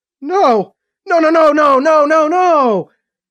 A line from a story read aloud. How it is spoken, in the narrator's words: Emily almost shouted, frantic